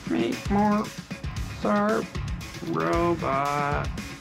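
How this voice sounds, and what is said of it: Bad robot voice. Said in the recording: “do the robot voice ... That's a terrible robot voice.”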